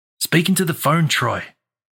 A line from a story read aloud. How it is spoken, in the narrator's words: I said